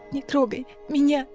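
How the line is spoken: Speech through sobs. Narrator (Russian): сквозь судорожные всхлипы произнесла

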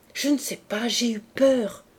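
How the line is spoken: Fearful stammering. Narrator (French): balbutia-t-elle

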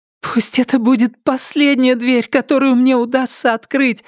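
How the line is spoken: Pleading woman. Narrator (Russian): взмолилась она

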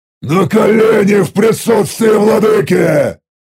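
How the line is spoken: Roaring. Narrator (Russian): взревел

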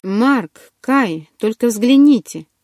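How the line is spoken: Exclamation. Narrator (Russian): воскликнул Ару

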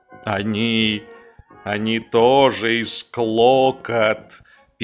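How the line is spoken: Sad report. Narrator (Russian): печально доложил Балоун

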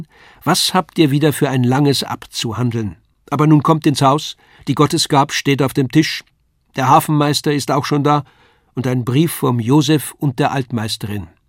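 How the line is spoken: Calling out. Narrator (German): rief sie

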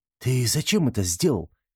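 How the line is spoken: Frightened question. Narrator (Russian): испуганно спросил он Хайскара

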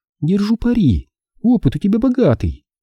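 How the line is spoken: Giggling. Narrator (Russian): хихикнула она

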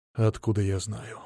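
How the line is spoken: Grumbling mutter. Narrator (Russian): буркнул Мамонов

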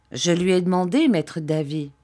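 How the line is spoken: Plain reply. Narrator (French): me répondit-il

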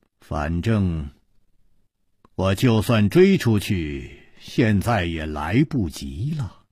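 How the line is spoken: Flat, indifferent. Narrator (Chinese): 陆小凤淡淡地说了一句

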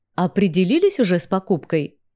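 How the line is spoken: Plain. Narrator (Russian): спросил меня гном

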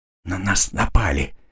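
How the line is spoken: Quiet whisper. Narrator (Russian): тихо прошептала она

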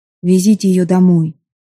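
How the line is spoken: Tired. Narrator (Russian): устало сказал Владислав

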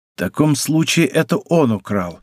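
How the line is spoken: Plain. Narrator (Russian): ответил Д'Артаньян

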